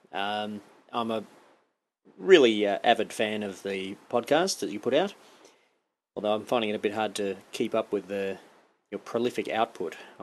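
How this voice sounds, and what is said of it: Australian accent. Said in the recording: “as you can tell by my accent. That stands for Western Australia.”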